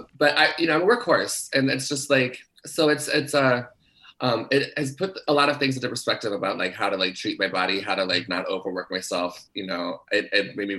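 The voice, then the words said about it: Hoarse, recovering voice. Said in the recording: “I lost my voice last week. And it's like very slowly coming back. So it's like, I'm still a little bit hoarse. ... We still sound a little prepubescent.”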